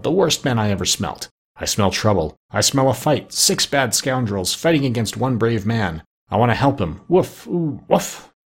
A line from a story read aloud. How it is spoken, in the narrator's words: he growled